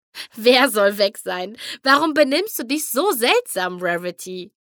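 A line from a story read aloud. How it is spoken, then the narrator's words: Laughing speech. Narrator (German): lachte Rainbow Dash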